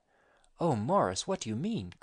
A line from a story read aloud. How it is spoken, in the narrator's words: cried Miss Mantle